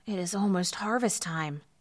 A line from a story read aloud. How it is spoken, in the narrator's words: said one son wearily